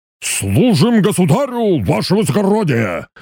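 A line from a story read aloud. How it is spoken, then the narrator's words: Barked loudly. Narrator (Russian): гаркнул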